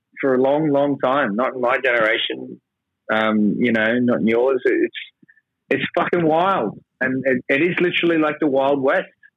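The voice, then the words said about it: Australian accent. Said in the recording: “I'm Australian, as you might have noticed from my accent”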